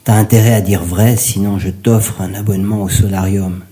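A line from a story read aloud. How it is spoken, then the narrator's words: Menacing declaration. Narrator (French): déclara Édouard d'un ton menaçant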